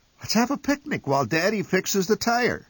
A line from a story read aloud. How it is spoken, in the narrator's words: suggested Mother cheerfully